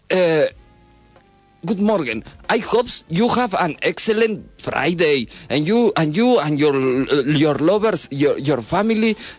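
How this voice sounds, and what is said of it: English with a Mexican accent. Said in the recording (Spanish): “hablas inglés con acento mexicano, como en las películas yankee”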